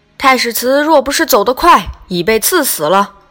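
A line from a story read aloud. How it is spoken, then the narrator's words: Soldiers shouting. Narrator (Chinese): 令军士大叫曰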